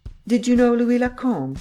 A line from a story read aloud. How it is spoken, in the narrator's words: he asked